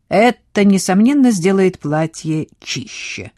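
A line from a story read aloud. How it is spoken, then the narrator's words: Dry remark. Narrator (Russian): сухо заметил Хьюго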